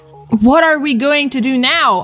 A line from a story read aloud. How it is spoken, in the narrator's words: I cried cryingly